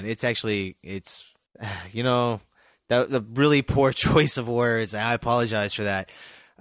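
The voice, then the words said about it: Laughing while speaking. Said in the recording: “I'm laughing, so I sound insincere.”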